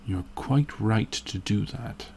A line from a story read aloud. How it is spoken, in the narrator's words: he muttered